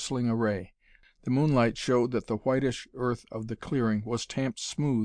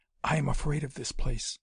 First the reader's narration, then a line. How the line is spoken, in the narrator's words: she whispered suddenly